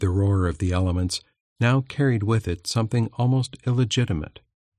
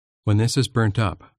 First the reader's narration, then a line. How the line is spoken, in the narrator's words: said firmly